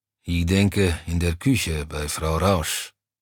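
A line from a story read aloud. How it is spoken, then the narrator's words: Grumbling. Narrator (German): brummte Browny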